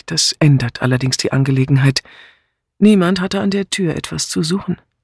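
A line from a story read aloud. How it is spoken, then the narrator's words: Calm. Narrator (German): meinte sie ruhig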